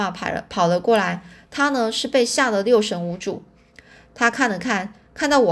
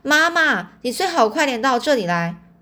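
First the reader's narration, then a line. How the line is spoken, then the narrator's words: Loud shout. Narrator (Chinese): 黛西就大声喊着说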